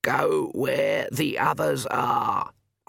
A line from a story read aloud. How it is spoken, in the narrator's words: Granny Weatherwax croaked